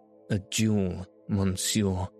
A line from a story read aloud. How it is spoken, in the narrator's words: he stammered